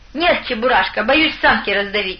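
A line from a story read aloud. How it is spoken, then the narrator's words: Laughing. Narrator (Russian): рассмеялся Савелий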